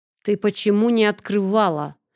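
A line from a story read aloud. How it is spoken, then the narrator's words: Nervous panting growl. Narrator (Russian): прорычал нервный начальник, тяжело дыша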